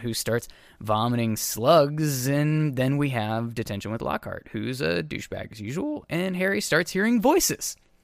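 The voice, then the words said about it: Polished, pleasing radio-style voice. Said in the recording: “you have such a lovely radio voice? Like, it's so perfect.”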